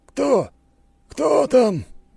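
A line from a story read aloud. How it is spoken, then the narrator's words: Weak hoarse voice. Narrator (Russian): слабый хриплый голос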